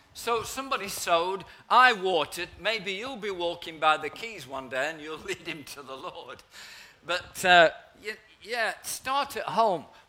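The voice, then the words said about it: Nottinghamshire English accent. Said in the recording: “you can tell by my refined accent, in the heart of Nottinghamshire”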